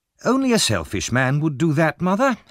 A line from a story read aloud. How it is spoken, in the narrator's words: Harry answered impatiently